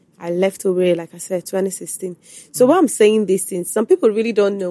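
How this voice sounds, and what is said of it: Nigerian Igbo accent. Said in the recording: “my accent, Igbo accent”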